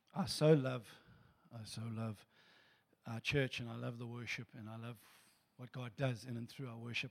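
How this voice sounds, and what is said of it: Hoarse, worn-out voice. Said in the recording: “We sing top of our voices. That's why I've lost my voice”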